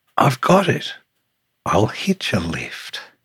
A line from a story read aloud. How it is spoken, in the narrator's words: the tiny sea snail sighed and sniffed, then cried